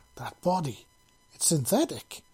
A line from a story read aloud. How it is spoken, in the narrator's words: he exclaimed